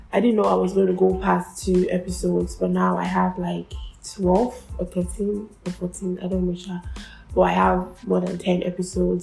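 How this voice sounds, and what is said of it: Sick, congested-sounding voice. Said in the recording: “sorry for my voice. I have cold”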